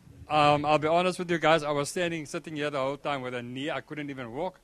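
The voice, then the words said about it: South African accent. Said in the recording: “You're from South Africa. I love your accent.”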